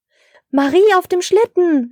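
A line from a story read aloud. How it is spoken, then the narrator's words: Surprised call. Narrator (German): rief Herr Schneemann überrascht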